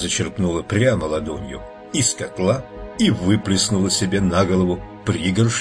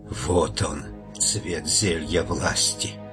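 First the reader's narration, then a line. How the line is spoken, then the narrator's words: Whispered. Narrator (Russian): Наконец она прошептала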